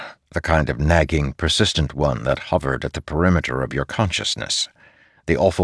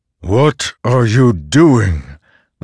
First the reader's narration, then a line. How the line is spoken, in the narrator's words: the Stormfather demanded, his voice like thunderheads crashing against one another